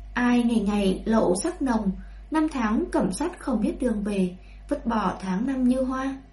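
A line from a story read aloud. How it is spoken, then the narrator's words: Soft singing. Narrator (Vietnamese): hồ cơ kia nhẹ nhàng hát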